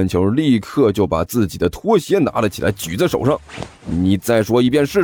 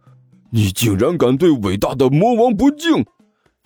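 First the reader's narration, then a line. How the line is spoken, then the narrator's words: Sudden roar. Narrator (Chinese): 尼采顿时吼道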